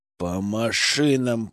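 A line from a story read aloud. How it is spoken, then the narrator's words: Through clenched teeth. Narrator (Russian): процедил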